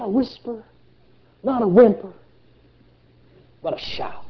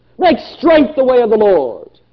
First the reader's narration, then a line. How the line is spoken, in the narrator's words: He was shouting